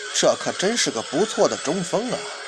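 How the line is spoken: Muttering to himself. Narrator (Chinese): 也在那儿自己喃喃自语啊

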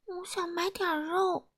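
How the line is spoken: Quiet voice. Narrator (Chinese): 他小声地说

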